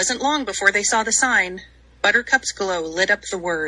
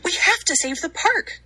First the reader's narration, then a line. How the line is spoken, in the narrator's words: cried Poppy